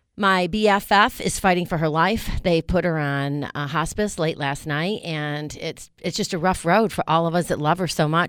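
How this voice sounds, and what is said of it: Weathered, emotionally strained voice. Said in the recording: “if you guys can hear it in my voice, I am a little weathered.”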